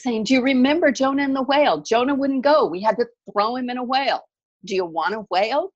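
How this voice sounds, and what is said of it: Bad put-on Jewish accent. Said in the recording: “This really bad Jewish accent.”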